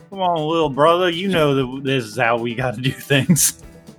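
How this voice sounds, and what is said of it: Australian accent drifting into Southern. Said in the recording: “I can't do a fucking Australian accent and not have it turn into just fucking Southern. Fuck it, they're Southern.”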